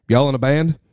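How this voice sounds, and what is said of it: Good Southern US accent impression. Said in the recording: “really good Southern impression ... Yeah, pretty good.”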